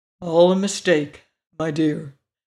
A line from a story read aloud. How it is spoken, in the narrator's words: protested the lion gravely